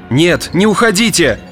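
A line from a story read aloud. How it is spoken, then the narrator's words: Shouting. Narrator (Russian): кричал он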